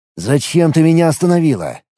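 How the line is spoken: Irritated question. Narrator (Russian): раздраженно спросил

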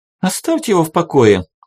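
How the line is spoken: Irritated voice from the floor. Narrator (Russian): Раздраженно донеслось с пола

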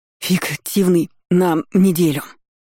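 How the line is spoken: Breathless, halting, syllable-by-syllable. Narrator (Russian): По слогам, делая паузу и задыхаясь, выдавил он

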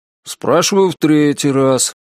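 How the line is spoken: Bored droning mutter. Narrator (Russian): скучным голосом пробубнил он

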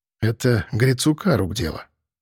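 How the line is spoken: Whisper. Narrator (Russian): шепнул я Вере

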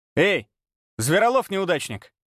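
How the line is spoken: Rough bark. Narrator (Russian): Грубо рявкнула она

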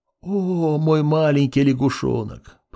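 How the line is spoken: Tender whisper. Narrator (Russian): прошептал Муранэ

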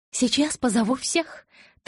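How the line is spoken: Hurried blurt. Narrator (Russian): торопливо выпалила Элис

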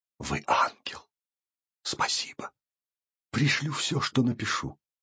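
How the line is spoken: Hurried whisper. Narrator (Russian): Он успел, однако, шепнуть

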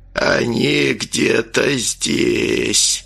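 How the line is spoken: Creaky male voice. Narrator (Russian): проскрипел чей-то, очевидно, мужской голос

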